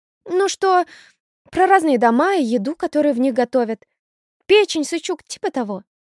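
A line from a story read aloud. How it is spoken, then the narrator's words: Babbled. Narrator (Russian): пролепетала Макарова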